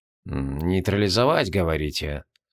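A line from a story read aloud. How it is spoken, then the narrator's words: Muttering. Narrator (Russian): забормотал Локлостарос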